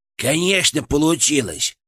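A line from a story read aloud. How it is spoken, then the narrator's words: Smug snort, inner voice. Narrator (Russian): самодовольно фыркнул у меня в голове Фырк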